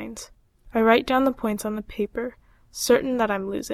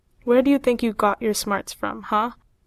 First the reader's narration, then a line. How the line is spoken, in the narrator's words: Mom laughs